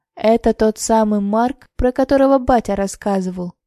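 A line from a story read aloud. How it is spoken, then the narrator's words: Pleased, mysterious voice. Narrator (Russian): довольным и загадочным голосом произнес Василий Антонович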